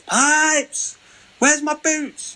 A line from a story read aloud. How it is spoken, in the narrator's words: He used to be shouting through the corridors